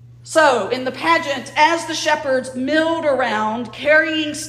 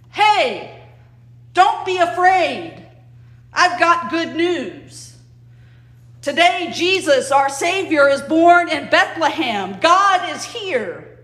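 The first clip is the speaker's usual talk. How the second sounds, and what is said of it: Loud proclaiming voice. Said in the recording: “in my loudest voice,”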